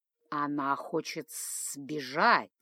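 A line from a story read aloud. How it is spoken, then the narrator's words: Slobbering hiss. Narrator (Russian): Капая на пол слюной, прошипел Хаят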